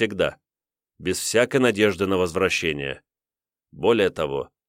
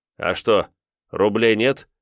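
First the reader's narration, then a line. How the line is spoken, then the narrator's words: Snorting. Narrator (Russian): хмыкнул Саларин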